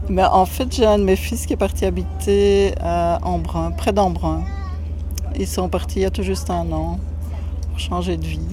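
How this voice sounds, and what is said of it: Slight foreign French accent. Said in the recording (French): “vous avez un petit accent”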